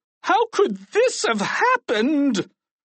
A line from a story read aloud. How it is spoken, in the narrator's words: cried Mr